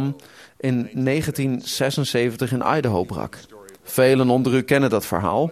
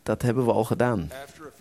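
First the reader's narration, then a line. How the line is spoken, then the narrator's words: Soft reply. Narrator (Dutch): antwoordde de ringpresident zachtjes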